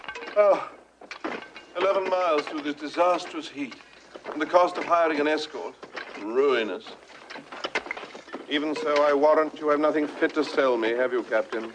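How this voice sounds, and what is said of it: British accent. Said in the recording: “a British accent transports a listener to a more exotic place ... the British accent is stand in for any other kind of exotic places ... films of ancient Greece, ancient Rome ... Peter Ustinov in Spartacus”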